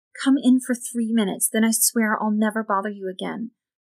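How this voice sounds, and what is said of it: Low, quiet voice. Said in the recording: “in a low voice.”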